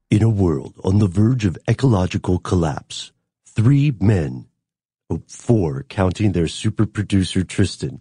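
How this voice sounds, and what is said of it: Dramatic movie trailer narrator voice. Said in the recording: “Can you do it in a movie trailer voice?”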